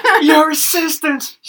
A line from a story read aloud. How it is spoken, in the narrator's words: She screeched out